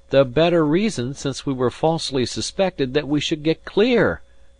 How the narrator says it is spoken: I cried

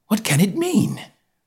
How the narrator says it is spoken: I gasped

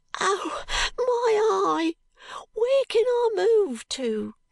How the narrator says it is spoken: cries the boy, clutching quite desperately at his hair

